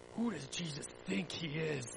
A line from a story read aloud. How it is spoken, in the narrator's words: the important people whispered